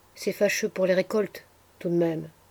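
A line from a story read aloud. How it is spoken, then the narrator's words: Murmuring in low voice. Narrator (French): murmura Cyprien à mi-voix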